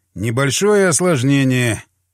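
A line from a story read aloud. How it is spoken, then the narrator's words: Sighing. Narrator (Russian): Вздохнул я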